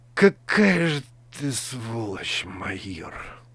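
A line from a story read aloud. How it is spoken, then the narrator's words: Exhausted whisper. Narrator (Russian): Из последних сил прошептал лейтенант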